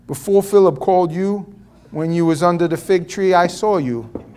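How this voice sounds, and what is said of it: Thick New York Brooklyn accent. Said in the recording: “New York thick Brooklyn accent”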